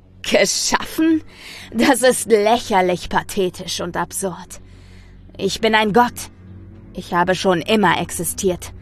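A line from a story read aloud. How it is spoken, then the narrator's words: Thundering. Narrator (German): donnerte ich dem Wesen entgegen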